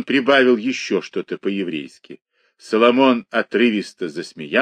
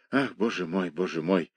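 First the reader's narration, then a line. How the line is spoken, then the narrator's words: Low muttering. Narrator (Russian): забормотал он полголоса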